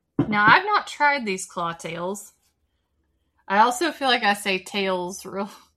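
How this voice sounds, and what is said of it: Strong Southern US accent. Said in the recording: “My accent really comes ... super southern accent. ... The vowels we struggle with.”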